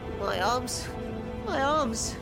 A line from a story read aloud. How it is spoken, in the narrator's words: He moaned